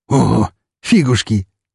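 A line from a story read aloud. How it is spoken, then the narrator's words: Snorted, big man. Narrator (Russian): тут же фыркнул стоящий рядом со мной здоровяк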